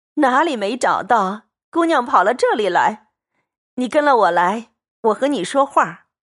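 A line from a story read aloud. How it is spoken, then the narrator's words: Laughing. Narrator (Chinese): 他嫂子笑道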